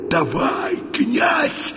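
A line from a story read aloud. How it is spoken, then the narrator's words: Hoarse, from behind. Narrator (Russian): прохрипел сзади Полют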